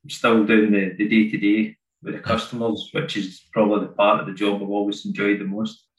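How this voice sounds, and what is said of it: Scottish accent. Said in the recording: “your accent doesn't sound like you're from the Reading area... I'm from near Glasgow. In Scotland.”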